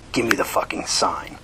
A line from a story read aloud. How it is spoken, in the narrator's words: his voice hissed in the night